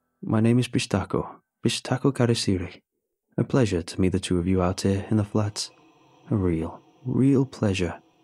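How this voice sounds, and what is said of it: Thick Spanish accent. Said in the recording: “his accent thick in Spanish”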